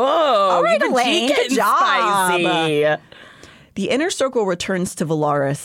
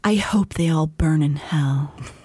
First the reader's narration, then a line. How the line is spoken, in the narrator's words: sighed and murmured